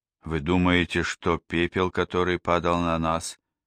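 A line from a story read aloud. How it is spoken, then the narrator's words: Hoarse unfriendly voice. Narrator (Russian): Хриплым и недружелюбным голосом спросила миссис Рэпка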